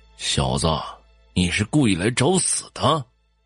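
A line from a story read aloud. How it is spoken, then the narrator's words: Sinister, menacing voice. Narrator (Chinese): 李虎声音阴森恐怖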